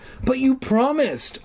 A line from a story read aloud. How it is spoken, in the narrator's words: I cried